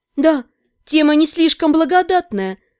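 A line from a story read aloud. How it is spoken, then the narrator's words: Sighing. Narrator (Russian): вздохнула я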